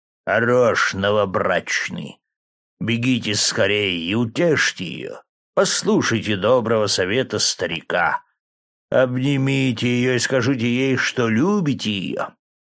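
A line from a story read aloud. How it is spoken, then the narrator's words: Deep booming voice. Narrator (Russian): басил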